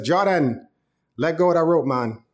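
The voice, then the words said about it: Put-on Jamaican accent. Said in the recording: “please don't judge my Jamaican accent”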